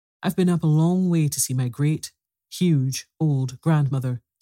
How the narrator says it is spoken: said the princess

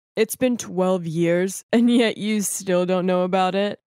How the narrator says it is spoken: One of the men just laughed and said

